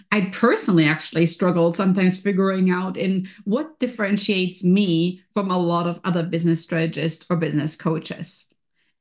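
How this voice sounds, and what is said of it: German accent. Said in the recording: “You can hear from my accent right here ... I am from German heritage. I'm born in Germany.”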